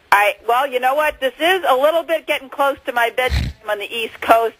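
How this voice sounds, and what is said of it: Boston accent. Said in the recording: “I love your accent. ... your accent is so Boston.”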